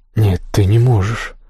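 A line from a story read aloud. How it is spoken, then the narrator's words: Forced out with difficulty. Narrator (Russian): только и удалось выдавить ему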